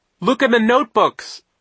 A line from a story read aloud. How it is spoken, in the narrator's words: Isadora cried